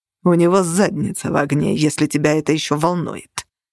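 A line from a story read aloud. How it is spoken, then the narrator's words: Icy reply. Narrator (Russian): ледяным тоном ответствовал Нигер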